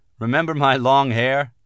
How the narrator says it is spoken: the clean-cut monk said, laughing

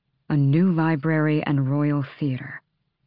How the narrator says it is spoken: he murmured onto her mouth

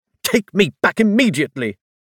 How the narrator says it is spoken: Cassian said furiously

